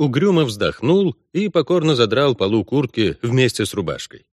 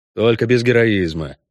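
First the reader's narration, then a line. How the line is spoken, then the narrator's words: Snorting. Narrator (Russian): фыркнул Геральт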